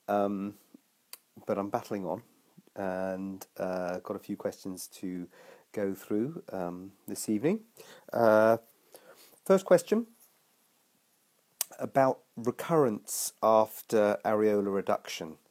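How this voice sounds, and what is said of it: Congested voice from a cold. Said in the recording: “I have a little bit of a cold, as you might be able to hear”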